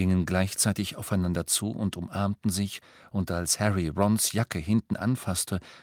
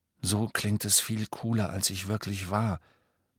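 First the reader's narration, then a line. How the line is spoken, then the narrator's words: Murmur. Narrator (German): murmelte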